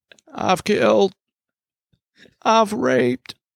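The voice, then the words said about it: Imitates a film character's voice. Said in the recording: “That's actually a pretty good little impression, dude... That was pretty accurate, dude... Wow, that's pretty good.”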